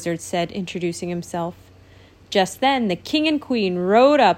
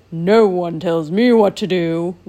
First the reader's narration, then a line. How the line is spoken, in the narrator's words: snarled